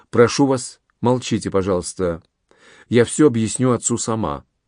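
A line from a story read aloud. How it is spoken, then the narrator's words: Quiet. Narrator (Russian): Инесса тихо произнесла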